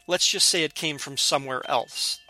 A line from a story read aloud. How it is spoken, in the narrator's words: the man said